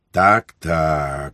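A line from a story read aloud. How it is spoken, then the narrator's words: Sighing priest. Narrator (Ukrainian): зітхнув отець духовний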